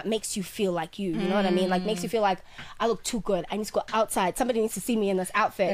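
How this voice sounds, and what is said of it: Partial Australian accent. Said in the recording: “I'm absolutely obsessed with your Australian accent. ... because it's not coming out as completely Australian. ... Words where I'm just like, oh, that sounds like we're in Byron Bay.”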